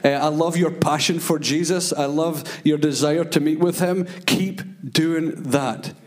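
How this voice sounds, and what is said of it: Speaks with a noticeable accent. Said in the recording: “You're catching my accent now.”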